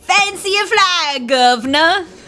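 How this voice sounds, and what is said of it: Atrocious put-on English accent. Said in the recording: “our accents are atrocious”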